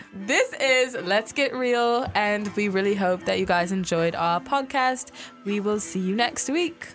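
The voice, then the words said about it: Work-in-progress put-on British accent. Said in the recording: “my um, work in progress British accent”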